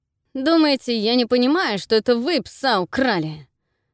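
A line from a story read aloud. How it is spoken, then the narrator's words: Hissed resentfully. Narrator (Russian): Прошипел обиженно Герхард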